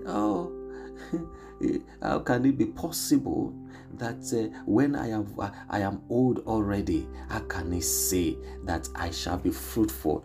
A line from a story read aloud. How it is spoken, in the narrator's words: Sarah laughed at herself, at God